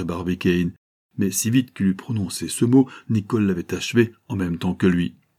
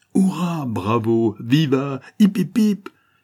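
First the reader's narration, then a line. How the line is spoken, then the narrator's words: Exclaimed. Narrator (French): s'écria Michel Ardan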